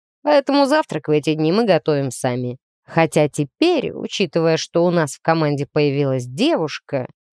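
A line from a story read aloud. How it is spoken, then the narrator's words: Thoughtful. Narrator (Russian): задумчиво заметил зануда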